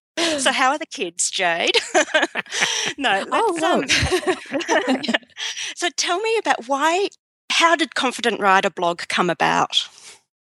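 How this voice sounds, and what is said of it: Australian accent. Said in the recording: “all these lovely Australian accents”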